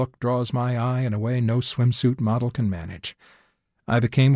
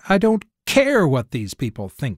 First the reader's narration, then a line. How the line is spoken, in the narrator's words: I snapped